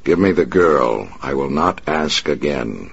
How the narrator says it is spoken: the Batman said

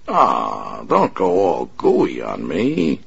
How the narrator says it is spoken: the big man sneered

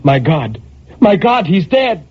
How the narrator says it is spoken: a terror took hold of her and she cried

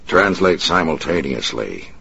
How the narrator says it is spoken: the Batman said in a harsh voice

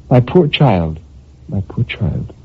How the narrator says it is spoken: murmured gently

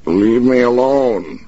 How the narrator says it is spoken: he shouted, but the shout came out a whine, low-pitched and weak

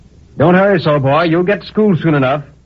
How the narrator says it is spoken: the blacksmith cried to me

